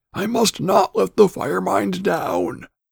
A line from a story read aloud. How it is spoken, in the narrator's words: cried